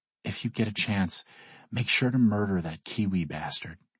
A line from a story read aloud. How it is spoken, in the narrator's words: she whispers into my ear